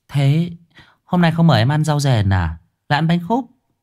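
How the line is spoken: Giggling. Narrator (Vietnamese): Trang cười khúc khích

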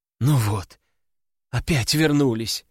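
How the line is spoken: Sighing. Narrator (Russian): вздохнула девушка

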